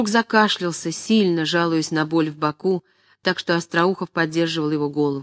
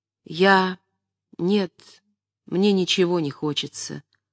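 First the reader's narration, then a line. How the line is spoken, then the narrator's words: Sad, quiet. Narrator (Russian): грустно, тихим голосом отвечал Мечиславский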